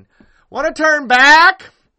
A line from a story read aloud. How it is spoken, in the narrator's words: He yells this louder than is necessary